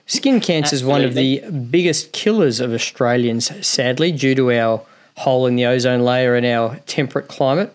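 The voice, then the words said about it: Australian accent. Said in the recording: “as an Aussie, as you can clearly tell from my accent”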